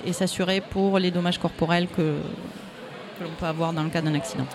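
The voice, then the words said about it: Toulouse regional French accent. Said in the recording (French): “On l'a entendu à son accent. ... comme on dit dans la région de Toulouse”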